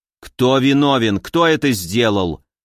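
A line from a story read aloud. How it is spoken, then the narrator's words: Prophet asking angrily. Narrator (Russian): зло спросил великий пророк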